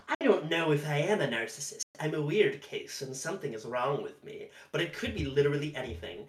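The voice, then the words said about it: Exaggerated evil villain voice. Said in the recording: “I'm just going to do this in the most evil voice I can.”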